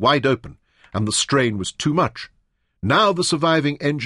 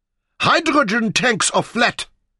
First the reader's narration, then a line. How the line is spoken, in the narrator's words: screamed with frustration